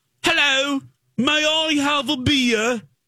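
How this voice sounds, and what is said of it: Over-exaggerated British accent. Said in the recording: “doing an over, over, over, over exaggerated British accent”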